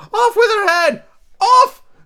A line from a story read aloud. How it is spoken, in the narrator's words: The Queen turned crimson with fury, and after glaring at her for a moment like a wild beast, she began to scream